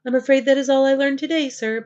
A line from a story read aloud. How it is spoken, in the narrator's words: Pascherette laughed